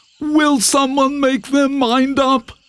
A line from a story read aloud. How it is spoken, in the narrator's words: said the nervous deer